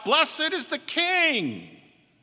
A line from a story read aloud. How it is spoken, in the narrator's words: The people shout